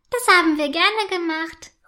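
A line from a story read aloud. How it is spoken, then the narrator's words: Calling back. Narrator (German): ruft Rotanella zurück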